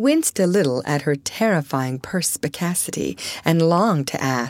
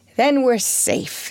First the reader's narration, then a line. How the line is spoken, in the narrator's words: she sighed